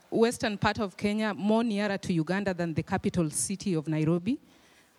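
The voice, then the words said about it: Noticeable foreign accent. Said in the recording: “I don't promise that you will understand everything because of my accent”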